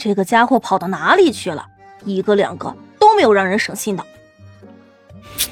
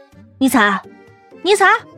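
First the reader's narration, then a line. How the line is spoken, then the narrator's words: Calling out. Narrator (Chinese): 万晨对着附近喊道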